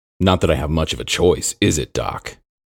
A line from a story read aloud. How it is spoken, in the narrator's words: Aaron replied, his tone more bitter than he intended